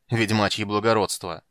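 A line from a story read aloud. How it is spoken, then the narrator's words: Snort. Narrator (Russian): фыркнул Фиш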